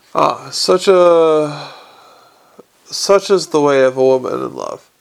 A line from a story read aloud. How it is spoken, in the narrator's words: sighed Mrs